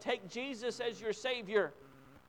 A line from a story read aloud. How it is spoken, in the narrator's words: his father lovingly pleading with him